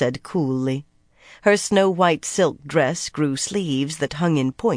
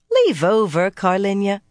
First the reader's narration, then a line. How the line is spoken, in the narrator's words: Anaya chuckled